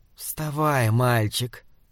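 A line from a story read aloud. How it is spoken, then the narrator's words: Soft, hoarse male voice. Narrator (Russian): мягкий и хриплый голос принадлежал мужчине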